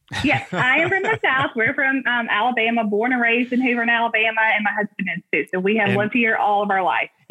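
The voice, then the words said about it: Southern US accent with twang. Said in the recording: “obviously from the South ... Maybe my accent ... got a little Southern twang ... Got a little Southern twang.”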